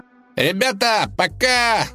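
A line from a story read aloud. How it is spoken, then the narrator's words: Shouting. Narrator (Russian): закричал дружок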